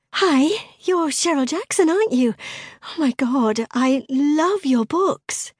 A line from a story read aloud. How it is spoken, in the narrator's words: Ellie ... saying in a gushing tone